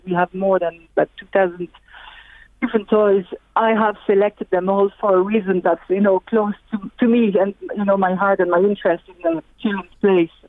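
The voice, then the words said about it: French accent. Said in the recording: “you have a lovely French accent too”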